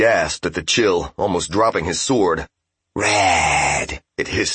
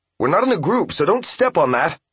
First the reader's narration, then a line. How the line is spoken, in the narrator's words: cried Yamura